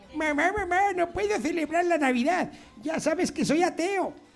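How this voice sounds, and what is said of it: Child's voice. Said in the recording (Spanish): “voz de niño”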